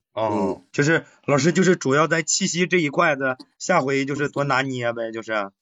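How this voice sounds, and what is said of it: Exaggerated Northeastern Chinese livestreamer accent. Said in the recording (Chinese): “这个口音还换地儿了呢？...你现在特别像是一个直播带货，然后喊了八个小时的一个东北博主主播。...快手主播”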